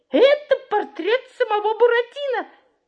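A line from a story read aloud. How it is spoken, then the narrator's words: Exclaiming in unison. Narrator (Russian): Мальвина, Пьеро, папа Карло, даже голодный Артемон воскликнули в один голос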